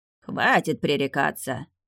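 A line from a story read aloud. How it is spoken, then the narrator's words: Grumbling. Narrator (Russian): буркнул Веденей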